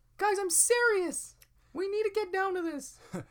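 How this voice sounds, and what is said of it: Very high-pitched serious voice. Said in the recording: “this is really super high voice”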